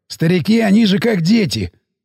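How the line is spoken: Smirking. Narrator (Russian): ухмыльнулся Сиплый

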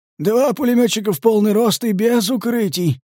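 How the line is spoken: Summarizing tone. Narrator (Russian): резюмировал Сиплый

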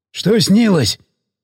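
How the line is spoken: Caring question, hoarse voice. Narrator (Russian): Заботливо поинтересовался сиплый

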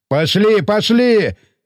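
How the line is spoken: Weaver yelling. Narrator (Russian): заорал ткач

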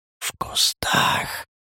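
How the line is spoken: Barely audible reply. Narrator (Russian): еле слышно ответил Леший

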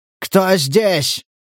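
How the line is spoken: Shouted. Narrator (Russian): крикнул Стас

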